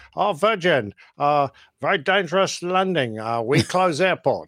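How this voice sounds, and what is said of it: Exaggerated put-on Chinese accent. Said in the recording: “my bad Chinese accent.”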